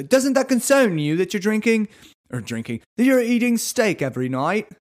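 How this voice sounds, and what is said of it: Put-on Australian accent. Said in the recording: “I think I got Australian there at the end ... I think I'm almost more Australian here”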